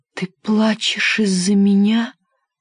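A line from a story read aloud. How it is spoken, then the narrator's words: Whisper. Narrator (Russian): прошептал он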